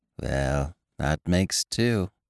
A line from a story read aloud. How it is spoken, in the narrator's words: he murmured, as if to himself